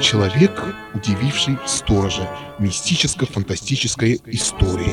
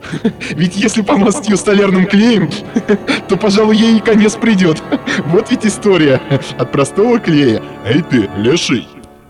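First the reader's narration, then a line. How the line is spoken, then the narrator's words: Sharp calling out. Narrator (Russian): окрикнул сторожа молодой человек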